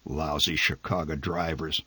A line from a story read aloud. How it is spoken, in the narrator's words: The old man muttered